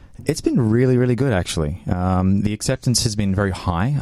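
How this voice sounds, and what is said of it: Australian English accent. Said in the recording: “as you can tell from my accent, I'm not from around these parts... I used to do a lot of this back in Australia”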